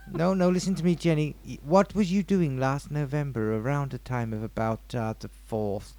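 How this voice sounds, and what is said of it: Put-on psychiatrist character voice. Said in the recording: “What is that voice? ... I'm a psychiatrist.”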